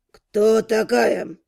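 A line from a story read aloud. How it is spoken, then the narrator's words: Calm, cold question. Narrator (Russian): Совершенно спокойным, холодным голосом задал вопрос герцог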